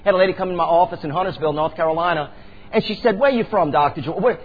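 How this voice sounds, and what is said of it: Chalmette Louisiana accent, fast talking. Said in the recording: “I was brought up in Chalmette, but I was born in Araby ... I'm going to talk a little fast tonight, and I'm going to talk with this accent.”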